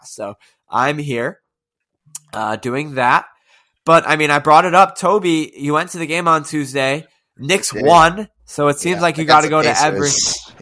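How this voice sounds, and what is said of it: Sick-sounding voice, not doing well. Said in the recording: “if you can tell the difference in my voice, because it's not doing so well. So I do have a cold”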